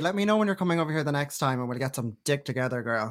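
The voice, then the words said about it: Irish accent. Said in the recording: “I love your Irish. ... the accents are just so beautiful and cute”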